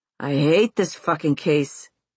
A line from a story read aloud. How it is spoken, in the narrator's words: he'll growl